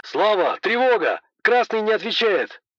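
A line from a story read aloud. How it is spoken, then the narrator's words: Shout. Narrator (Russian): крикнул Борис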